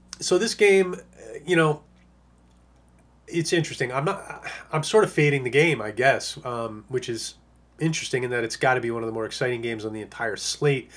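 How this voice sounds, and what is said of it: Strained, fading hoarse voice. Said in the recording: “You can tell I'm starting to lose my voice a little bit now.”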